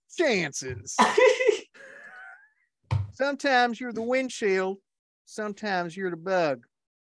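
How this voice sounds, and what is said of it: Put-on Southern accent. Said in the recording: “I'm going to do this in the best damn Southern accent I can.”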